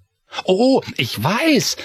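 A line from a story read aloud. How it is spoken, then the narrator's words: Called out. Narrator (German): rief Chris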